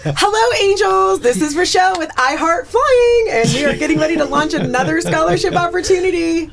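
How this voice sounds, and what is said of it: High-energy imitation of another person's voice. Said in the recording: “do your best Rochelle impersonation ... She's very high energy.”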